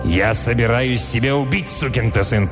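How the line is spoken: Growled. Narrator (Russian): прорычал Милтон

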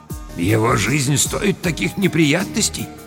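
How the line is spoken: Quiet speech. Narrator (Russian): сказал негромко

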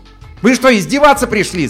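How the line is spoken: Yelled. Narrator (Russian): заорал он

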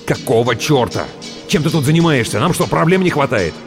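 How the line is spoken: Snapping retort. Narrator (Russian): огрызнулся

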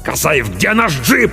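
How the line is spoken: Barked order. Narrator (Russian): рявкнул капитан

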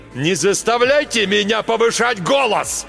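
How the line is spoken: Sudden yelling. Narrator (Russian): Вдруг заорал Марк Йоган

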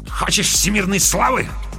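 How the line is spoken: Angry retort. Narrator (Russian): зло бросил Камов вслед

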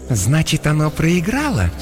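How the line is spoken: Silky, insinuating question. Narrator (Russian): вкрадчиво спросила Иокаста

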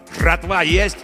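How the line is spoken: Angry barking voice. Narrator (Russian): гаркнул злой незнакомый голос

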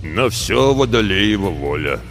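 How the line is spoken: Low rumble, grey-bearded mentor. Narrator (Russian): прогудел наставник в седую бороду

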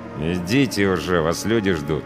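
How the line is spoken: Through gritted teeth. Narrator (Russian): процедил сквозь зубы пограничник

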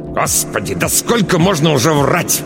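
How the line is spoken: Angry hiss. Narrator (Russian): Ираида Павловна злобно зашипела на дочь

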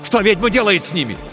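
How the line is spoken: Shout. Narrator (Russian): крикнул Тихон

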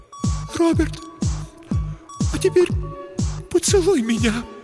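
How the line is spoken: Near tears. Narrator (Russian): произнесла Елена, едва не рыдая

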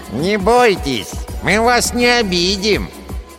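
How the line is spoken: Nasal dwarf voice. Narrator (Russian): Прогнусавил второй карлик

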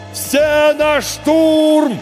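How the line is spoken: Yelling over ringing ears. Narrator (Russian): завопил Егор, пытаясь заглушить звон от выстрела в ушах

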